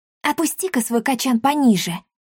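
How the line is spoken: Whisper. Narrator (Russian): шепнула Дарина Тришу

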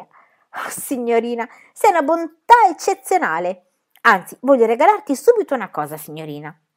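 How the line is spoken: Joyful exclamation. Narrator (Italian): Pippi esclamò raggiante di gioia

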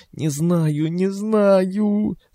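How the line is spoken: Helpless moaning. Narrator (Russian): стонала она в ответ, не в силах что-либо объяснить

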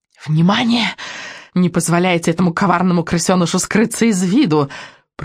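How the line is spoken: Whispered. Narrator (Russian): прошептала ведьма Экселинор

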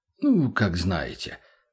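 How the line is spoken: Sighing. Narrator (Russian): вздохнул тот

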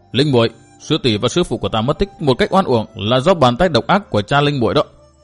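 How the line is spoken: Shouting. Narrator (Vietnamese): Hắn quát

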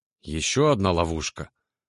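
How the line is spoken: Tired question. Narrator (Russian): устало спросила Тали

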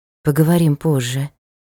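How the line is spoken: Very quiet. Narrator (Russian): сказал очень тихо

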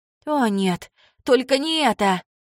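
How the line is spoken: Groaning. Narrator (Russian): застонала Кейт

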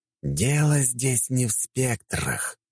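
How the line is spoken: Hissing snake-like voice. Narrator (Russian): сказал он своим фирменным голосом, больше похожим на змеиное шипение

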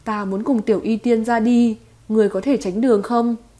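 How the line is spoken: Smiling. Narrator (Vietnamese): Tiêu Viêm mỉm cười nói

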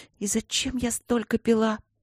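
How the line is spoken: Whisper. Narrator (Russian): прошептала она

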